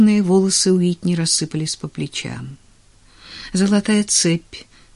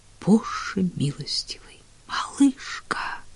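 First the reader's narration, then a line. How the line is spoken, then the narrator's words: Whisper. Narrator (Russian): прошептал Клейтон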